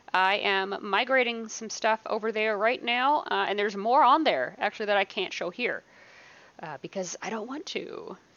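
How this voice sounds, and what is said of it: Hoarse, fading voice. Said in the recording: “Excuse me. Good Lord, I'm losing my voice.”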